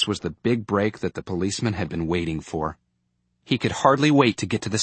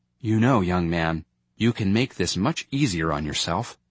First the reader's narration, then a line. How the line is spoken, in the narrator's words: in a deliberately mild voice, he said